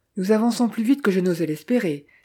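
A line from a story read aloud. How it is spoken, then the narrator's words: Exclaiming. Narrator (French): s'écria Eden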